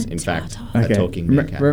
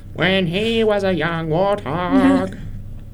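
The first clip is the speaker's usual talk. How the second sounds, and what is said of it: Imitates a cartoon meerkat character's voice. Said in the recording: “That was my impersonation of Timon.”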